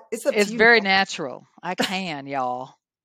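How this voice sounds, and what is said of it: Put-on Southern American accent. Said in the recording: “Do I need to turn on my Southern accent, too? Because I can.”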